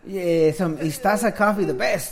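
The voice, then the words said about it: Fake Russian accent like Borat. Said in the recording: “You fucking sound so fake when you say that ... you sound Russian. It's like Borat.”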